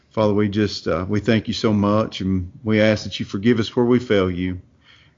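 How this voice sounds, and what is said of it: Northeast Tennessee Appalachian accent. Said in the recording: “you can tell by my dialect, I'm not from New York or anywhere like that. I'm from a little place up in Northeast Tennessee ... when I say hillbilly, it's hillbilly”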